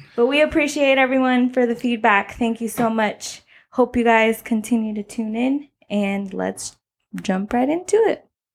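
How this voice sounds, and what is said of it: Breathless, out-of-breath speech. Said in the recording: “I sounded like I was out of breath ... it is hard to breathe and talk ... But yes, I am out of breath. It is hard to talk these days.”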